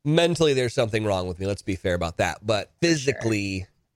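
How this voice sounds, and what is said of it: Sick-sounding voice. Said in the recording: “I'm sick. Can you hear it in my voice?”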